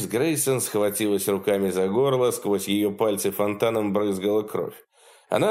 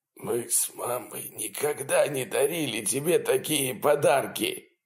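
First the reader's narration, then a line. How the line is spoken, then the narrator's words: Father's pained wheeze. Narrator (Russian): прохрипел папа, складываясь пополам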